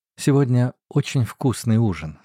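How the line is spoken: Plain. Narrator (Russian): сказала она

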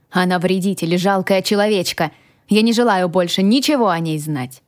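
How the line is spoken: Shouting. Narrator (Russian): прокричал я

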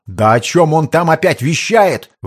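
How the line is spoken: Indignant clamor of voices. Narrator (Russian): вновь возмущенно загомонили бояре

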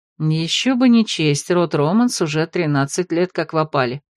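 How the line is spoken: Quiet commentary. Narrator (Russian): тихо комментировала Арвид

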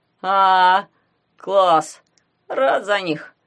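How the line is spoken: Drawled. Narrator (Russian): протянул Гуня

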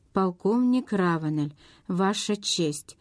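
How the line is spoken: Plain. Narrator (Russian): сказал Эндрю

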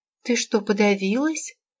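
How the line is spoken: Frightened question. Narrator (Russian): испуганно спросила Анна

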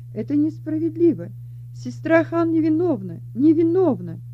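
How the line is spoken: Indignant shouting. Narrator (Russian): Она возмущенно кричала

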